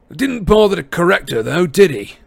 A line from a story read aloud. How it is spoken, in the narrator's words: said Amos, loudly enough for Harry to hear